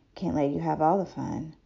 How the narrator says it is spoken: in a sexy, deep voice, he said

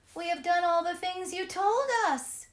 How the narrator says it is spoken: the children cried again

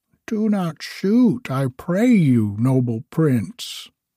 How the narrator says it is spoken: cried the duck

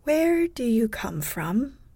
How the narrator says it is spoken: questioned gently, as if she were afraid of injuring me by using her normal voice

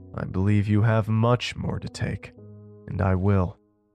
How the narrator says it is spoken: it coldly said

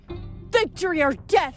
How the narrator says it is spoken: Nike wailed

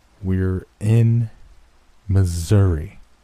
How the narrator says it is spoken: Worm said, speaking slowly, stressing each word

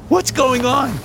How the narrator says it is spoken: I screamed out to the fat man

